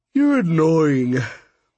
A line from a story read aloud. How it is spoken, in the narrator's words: she said through a giant yawn